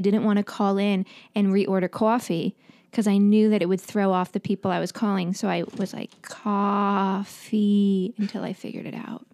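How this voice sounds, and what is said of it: New York accent. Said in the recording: “the accent was stinking hilarious ... New York accent”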